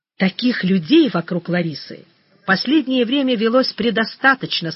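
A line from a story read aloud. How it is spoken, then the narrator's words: Angry, then heavy sigh. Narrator (Russian): сказал Груздев зло, помолчал, тяжело вздохнул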